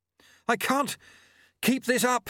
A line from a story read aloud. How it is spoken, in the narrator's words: he panted